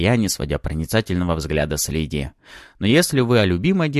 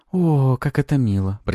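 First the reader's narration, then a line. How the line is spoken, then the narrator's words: Drawling. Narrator (Russian): протянула Пафи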